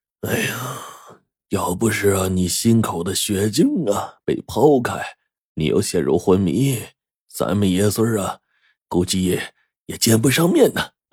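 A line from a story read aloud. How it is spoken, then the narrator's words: Sighing old man. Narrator (Chinese): 我爷忽然一叹，摇头说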